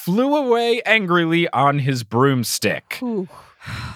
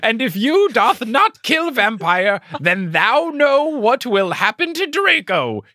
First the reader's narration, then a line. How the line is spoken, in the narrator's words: he shouted